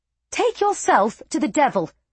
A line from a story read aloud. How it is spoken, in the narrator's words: Larda snapped